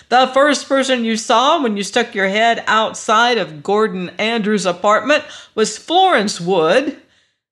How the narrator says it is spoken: he yelled

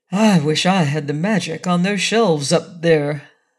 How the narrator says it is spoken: sighed the wizard

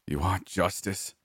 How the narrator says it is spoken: snarled

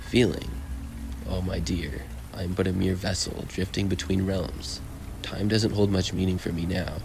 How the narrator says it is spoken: he said

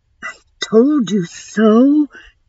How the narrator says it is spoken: Dawn breathed

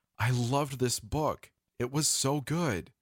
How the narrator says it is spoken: exclaiming

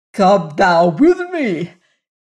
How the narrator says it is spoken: shouting

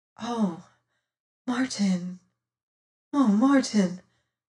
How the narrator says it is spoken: sighed my companion

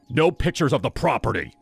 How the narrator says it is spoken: His tone was sharp, nothing like the charming host from the night before

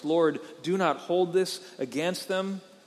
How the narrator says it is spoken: he cried out with a loud voice

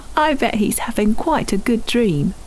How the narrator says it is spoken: Tim chuckled

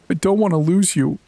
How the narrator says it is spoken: she sobbed into Sage's shoulder

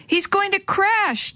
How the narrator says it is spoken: Dee Dee yelled

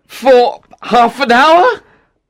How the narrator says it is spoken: said Octavian anxiously

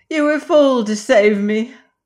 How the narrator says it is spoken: cried she

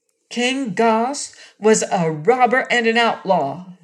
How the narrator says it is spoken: she said

